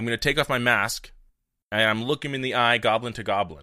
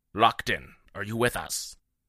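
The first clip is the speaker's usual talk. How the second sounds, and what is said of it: Lowered, quiet voice. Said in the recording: “I'm going to lower my voice.”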